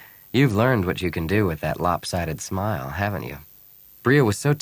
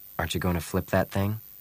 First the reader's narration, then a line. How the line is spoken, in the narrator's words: He asked softly